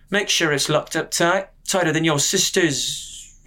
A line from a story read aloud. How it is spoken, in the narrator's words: he faltered